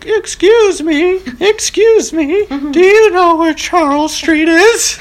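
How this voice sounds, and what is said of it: Imitates an elderly woman's voice. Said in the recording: “That was a good impression of her.”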